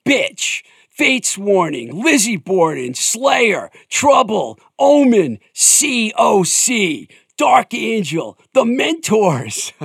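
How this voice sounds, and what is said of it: Heavy metal style voice. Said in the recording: “in my metal voice.”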